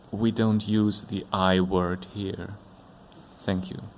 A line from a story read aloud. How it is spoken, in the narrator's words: he said calmly